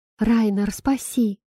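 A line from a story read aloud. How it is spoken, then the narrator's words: Heartfelt plea. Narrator (Russian): взмолилась от души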